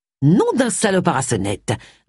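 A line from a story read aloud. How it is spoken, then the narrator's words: Grumbled. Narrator (French): grommela Agatha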